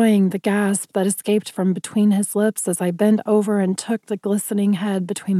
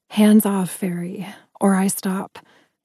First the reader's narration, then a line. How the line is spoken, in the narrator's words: I growled huskily